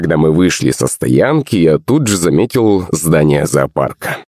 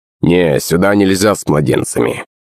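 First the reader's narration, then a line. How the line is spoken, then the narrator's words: Rough voice. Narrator (Russian): грубым голосом ответила кассирша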